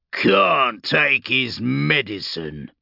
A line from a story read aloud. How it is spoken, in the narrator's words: Urgork grunted